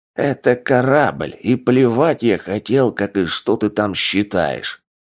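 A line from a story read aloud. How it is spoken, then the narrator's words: Growling. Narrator (Russian): прорычал Олаф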